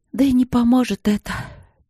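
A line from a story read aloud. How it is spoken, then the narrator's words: Sighing. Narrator (Russian): она вздохнула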